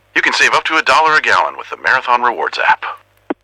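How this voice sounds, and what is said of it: Impression of Max the Bald Eagle. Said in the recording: “could do an impression of me ... That last one was pretty good.”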